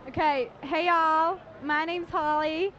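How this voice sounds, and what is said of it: Put-on Texas accent. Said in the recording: “Texas accent”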